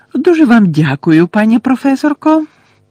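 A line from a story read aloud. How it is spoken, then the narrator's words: Squeaky voice. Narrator (Ukrainian): пропищав професор Флитвік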